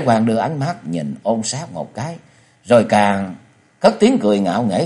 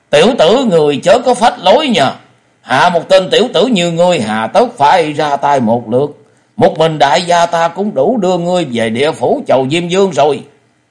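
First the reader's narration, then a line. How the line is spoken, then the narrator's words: Sudden loud shout. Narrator (Vietnamese): Ôn Sát chợt lớn tiếng quát to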